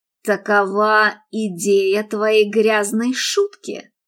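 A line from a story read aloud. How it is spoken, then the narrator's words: Hissed with murderous fury. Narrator (Russian): прошипел он, с убийственной яростью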